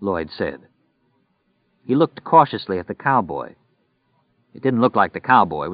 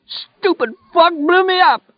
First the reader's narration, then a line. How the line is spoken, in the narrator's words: Poke screamed